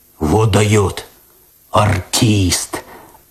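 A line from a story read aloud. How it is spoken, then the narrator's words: Admiring deep voice, cat. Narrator (Russian): опять восхищенно пробасил кот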